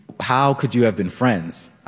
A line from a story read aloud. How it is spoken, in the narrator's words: asked